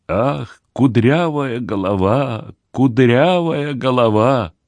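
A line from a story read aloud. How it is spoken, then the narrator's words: Loving mutter. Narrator (Russian): с любовью пробормотал Мордекай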